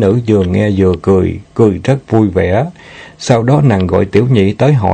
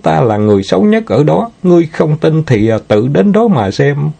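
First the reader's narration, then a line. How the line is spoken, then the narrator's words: Giggling. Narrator (Vietnamese): Nàng ta bật cười khanh khách ... nói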